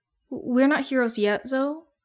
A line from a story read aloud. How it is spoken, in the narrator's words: Izuku stutters out